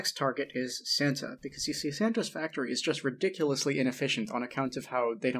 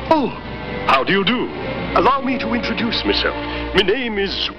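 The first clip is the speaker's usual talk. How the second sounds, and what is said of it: Fancy, almost-British old-fashioned voice. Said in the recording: “It's not a British accent, but it's almost a British accent. ... It's like how a fancy rich person from the 1940s would talk to sound more English ... it's very strange”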